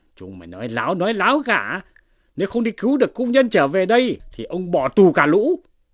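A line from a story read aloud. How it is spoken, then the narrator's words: Screaming. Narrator (Vietnamese): Lưu Chi Trại thét lên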